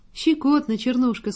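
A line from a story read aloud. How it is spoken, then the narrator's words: Laughing. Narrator (Russian): сказал он, смеясь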